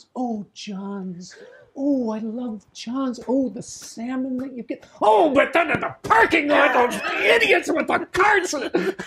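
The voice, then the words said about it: Imitated voice, sweet then angry. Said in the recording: “the contrast between the super sweet, enthusiastic Nate and then the really angry Nate ... my impression of Joe's impression”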